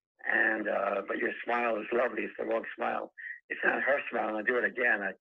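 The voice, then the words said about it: Hoarse, strained, fading voice. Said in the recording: “I'm losing my voice here”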